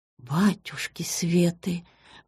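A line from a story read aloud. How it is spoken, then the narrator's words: Trembling, breathless mutter. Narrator (Russian): пробормотала Светлана Ивановна, и подбородок у нее задрожал, и дыхание сбилось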